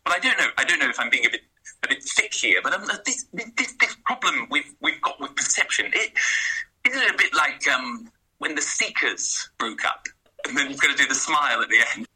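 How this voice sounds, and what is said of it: Impression of Tony. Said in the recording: “do an impression ... Do a couple of lines in your best Tony accent.”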